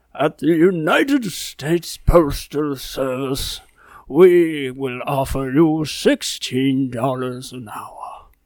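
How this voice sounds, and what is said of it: Character voice of a king. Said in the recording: “a king and his sorcerer ... general character”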